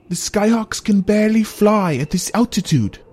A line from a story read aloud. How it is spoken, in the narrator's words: yelled Eulerium over the howling wind